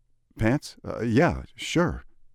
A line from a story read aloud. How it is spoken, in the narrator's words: stammer, still startled and bleary from unexpected early morning knocking